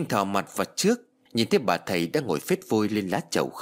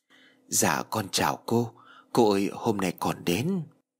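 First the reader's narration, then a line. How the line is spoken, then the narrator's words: Soft speech. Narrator (Vietnamese): Trinh khẽ nói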